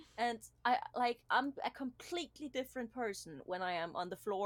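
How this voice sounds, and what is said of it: Usual voice. Nothing is said of it.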